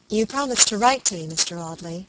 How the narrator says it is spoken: she said

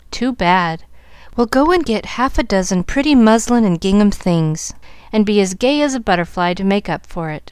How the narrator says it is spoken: laughed her father, really touched by the patches, and Molly's resignation

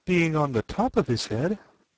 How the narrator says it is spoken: she said in a trembling voice

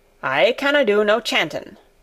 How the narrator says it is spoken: said Ben Weatherstaff, a trifle testily

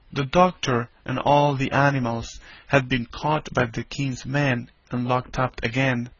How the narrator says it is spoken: whispered Polynesia

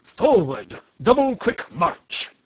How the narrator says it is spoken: the captain of the soldiers shouted

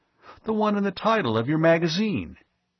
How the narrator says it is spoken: Ivan Fitzgerald exclaimed

